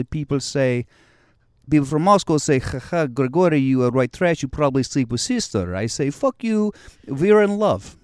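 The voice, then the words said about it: Put-on Russian accent. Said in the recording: “So I did a Russian accent on stage one night... the only way you get on stage is you do the Russian accent... As a Russian, my name was Grigory, and I would just talk like”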